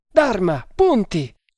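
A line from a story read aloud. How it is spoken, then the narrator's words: Choked shout. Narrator (Italian): gridò con voce strozzata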